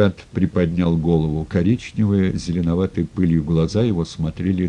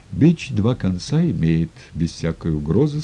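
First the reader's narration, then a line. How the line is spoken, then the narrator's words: Plain. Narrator (Russian): сказал Макар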